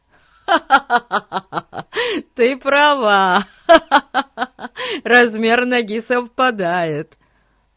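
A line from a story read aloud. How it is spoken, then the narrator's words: Laughing speech. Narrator (Russian): Сквозь смех сказал Фати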